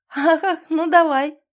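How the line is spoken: Laughing reply. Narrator (Russian): рассмеявшись, отвечает

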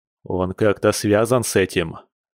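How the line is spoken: Angry question. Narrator (Russian): зло прищурившись, спросил Артём

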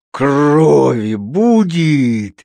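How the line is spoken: Menacing exclamation. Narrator (Russian): страшным голосом воскликнул он

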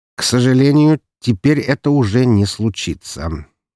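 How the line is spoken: Cold. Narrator (Russian): холодно проговорил он

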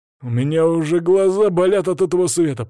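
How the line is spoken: Grumbling. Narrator (Russian): проворчал Свари

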